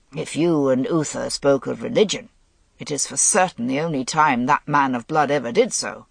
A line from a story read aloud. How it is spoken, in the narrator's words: Gaulois grumbled